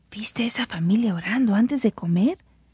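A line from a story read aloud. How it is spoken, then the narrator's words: Said quietly. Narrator (Spanish): dijo el señor García en voz baja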